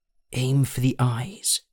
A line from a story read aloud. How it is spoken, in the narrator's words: Elandon breathed, as he tried desperately to stand